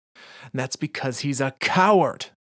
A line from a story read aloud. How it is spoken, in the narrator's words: Anna screams at him